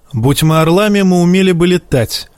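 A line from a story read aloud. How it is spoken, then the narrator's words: Snapping. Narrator (Russian): огрызнулся Жаен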